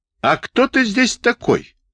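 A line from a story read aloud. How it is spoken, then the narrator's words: Sudden yell. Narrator (Russian): заорал он вдруг на Небольсина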